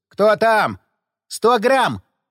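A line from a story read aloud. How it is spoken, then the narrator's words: Unrestrained bark. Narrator (Russian): Не сдержавшись, рявкнул в ответ Напалм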